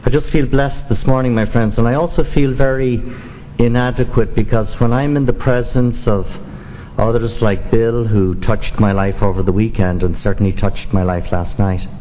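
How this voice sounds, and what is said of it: Non-native English accent. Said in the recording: “you've never lost your accent? ... I came here to the United States in 1971”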